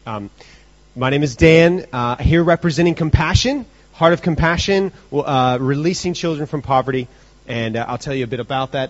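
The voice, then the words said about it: American accent. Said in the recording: “don't let the accent deceive you. I did not come from America. Okay? No, I did actually”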